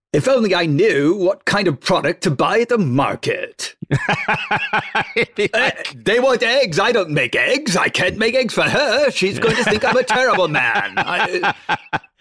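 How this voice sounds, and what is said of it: Imitates another person's voice. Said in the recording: “That's not even a good impression.”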